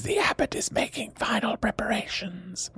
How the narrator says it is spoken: the whispery voice says

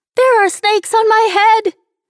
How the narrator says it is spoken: Nicole screamed

